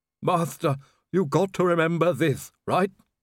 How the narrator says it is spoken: Igor groaned

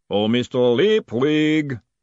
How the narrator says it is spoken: the voice boomed out across the stable yard

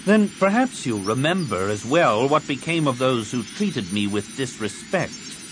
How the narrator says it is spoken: Card said icily

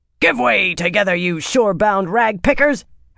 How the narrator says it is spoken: her deck mistress shouted from the bows

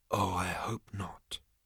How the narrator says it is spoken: breathed Ford

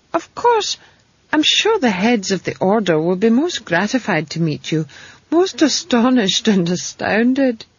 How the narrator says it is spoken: he said, and gave a little laugh

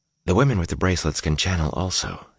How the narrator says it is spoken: replied, just as softly

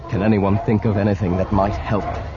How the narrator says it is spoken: He asked, keeping his voice steady and calm

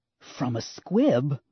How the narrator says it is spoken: Leia hissed

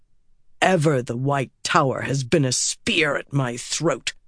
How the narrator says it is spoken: Rand snapped

